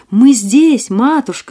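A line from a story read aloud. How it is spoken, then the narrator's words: Group shouting. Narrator (Russian): закричали они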